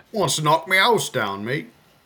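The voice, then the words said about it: Put-on accent. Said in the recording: “now I gotta do the accent.”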